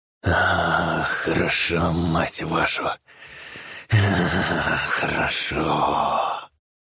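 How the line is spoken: Groaned. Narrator (Russian): Стонал он

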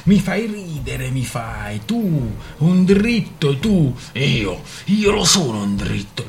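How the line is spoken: Bull's roar. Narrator (Italian): ruggì il toro

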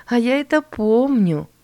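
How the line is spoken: Laughing. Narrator (Russian): засмеялась Эллен

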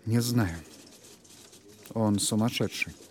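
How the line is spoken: Quiet reply. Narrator (Russian): Тихо ответил Торн

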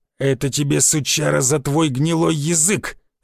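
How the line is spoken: Snarled. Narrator (Russian): зарычал Рыло

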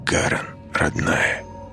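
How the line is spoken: Whisper. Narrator (Russian): шепнул Росс

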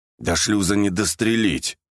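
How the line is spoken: Through gritted teeth. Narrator (Russian): процедил пельмень

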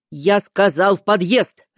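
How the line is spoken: Barked. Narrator (Russian): рявкнул он

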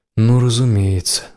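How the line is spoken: Sighed. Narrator (Russian): вздохнул Келл

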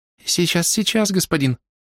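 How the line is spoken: Hurried, thin high voice. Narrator (Russian): торопливо и тоненьким голоском заверил кого-то Тед

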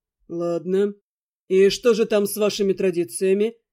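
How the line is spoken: Wry snort, reply. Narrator (Russian): Ждан хмыкнул и ответил

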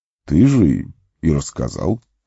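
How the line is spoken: Calm. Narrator (Russian): спокойно произнес маг

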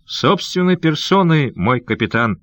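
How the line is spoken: Cheerful reply. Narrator (Russian): весело отвечал малаец

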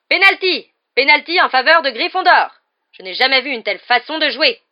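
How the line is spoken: Yelled. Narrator (French): hurla Madame Bibine

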